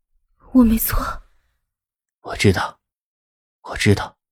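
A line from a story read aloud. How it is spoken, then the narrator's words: Trembling voice. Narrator (Chinese): 莫云熙颤声着说道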